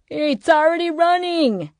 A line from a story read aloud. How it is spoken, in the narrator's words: someone yelled